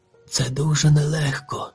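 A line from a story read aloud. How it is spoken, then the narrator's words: Father sighing. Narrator (Ukrainian): зітхнув батько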